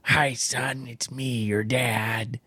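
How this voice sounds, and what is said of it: Generic dad character voice. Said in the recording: “I use this dad voice... Is that your dad voice?... Just a regular old dad... Just a generic... Dad”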